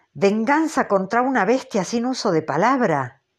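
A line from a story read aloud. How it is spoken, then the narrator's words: Exclamation. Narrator (Spanish): exclamó Starbuck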